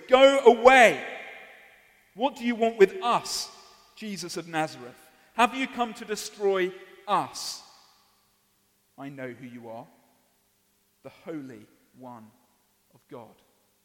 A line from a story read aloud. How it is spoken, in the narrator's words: He cried out at the top of his voice